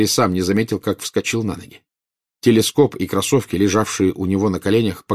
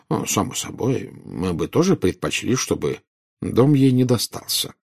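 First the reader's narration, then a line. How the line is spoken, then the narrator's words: Calm. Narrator (Russian): спокойно сказал Дамблдор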